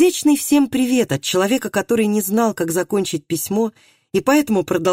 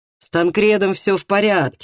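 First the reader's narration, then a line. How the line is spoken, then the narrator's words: Laughing. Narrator (Russian): засмеялся Бранд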